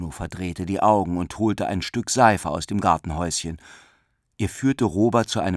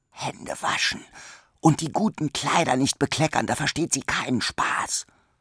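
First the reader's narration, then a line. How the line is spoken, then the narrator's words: Whispering. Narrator (German): flüsterte er Robert zu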